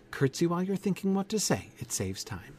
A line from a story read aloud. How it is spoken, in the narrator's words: She added in a kinder tone